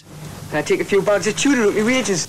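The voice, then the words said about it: Geordie accent. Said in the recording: “adverts featuring the Geordie accent”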